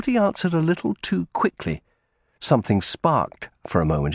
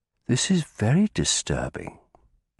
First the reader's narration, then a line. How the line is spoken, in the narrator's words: he said quietly